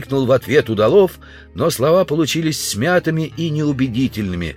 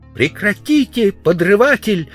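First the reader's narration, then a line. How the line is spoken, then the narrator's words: Shouted. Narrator (Russian): закричала она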